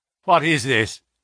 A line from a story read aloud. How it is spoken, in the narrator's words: he asked